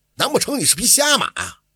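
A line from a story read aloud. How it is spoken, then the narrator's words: Furious. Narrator (Chinese): 金师傅 勃然大怒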